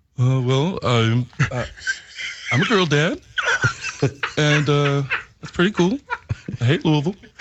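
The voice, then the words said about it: Dopey imitation of another person's voice. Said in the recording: “You do good impersonations ... doing Drew ... Drew sounds so dopey”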